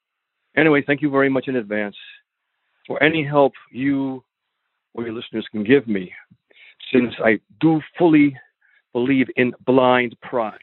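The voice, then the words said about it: Tri-state American accent. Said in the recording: “I can certainly hear that tri-state accent going on there.”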